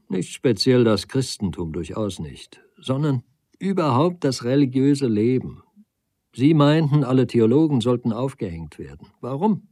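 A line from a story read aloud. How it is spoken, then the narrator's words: Plain question. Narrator (German): fragte ich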